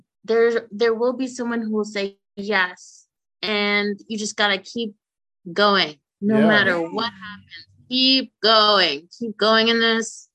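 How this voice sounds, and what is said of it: Emotional, tearful voice. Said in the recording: “I'm getting emotional. I'm sorry.”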